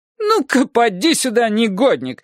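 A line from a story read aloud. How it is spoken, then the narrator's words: Shouting. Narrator (Russian): закричала она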